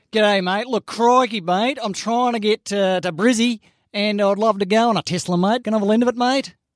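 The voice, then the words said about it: Put-on Australian accent. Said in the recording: “can you do it in an accent?”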